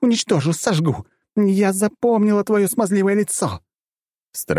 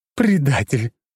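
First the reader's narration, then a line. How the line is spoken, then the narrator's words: Growling. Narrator (Russian): продолжала рычать Мира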